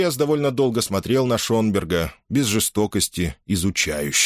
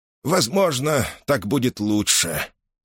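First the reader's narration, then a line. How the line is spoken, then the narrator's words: Old man's sigh. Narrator (Russian): старый жрец вздохнул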